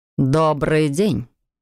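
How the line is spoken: Dry greeting. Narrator (Russian): сухо поздоровался он

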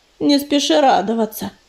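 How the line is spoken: Mutter. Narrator (Russian): пробормотал ежевика

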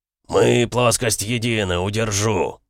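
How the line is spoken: Jubilant roar. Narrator (Russian): проревел Эмик с ликованием

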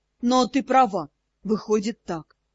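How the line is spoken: Sighing. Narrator (Russian): Я вздохнула

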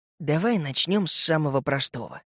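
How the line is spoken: Whispered. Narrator (Russian): прошептал я

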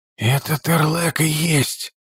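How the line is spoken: Whisper. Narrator (Russian): прошептал Тхакун

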